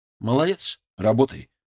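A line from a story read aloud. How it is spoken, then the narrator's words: Calm. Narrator (Russian): спокойно сказал я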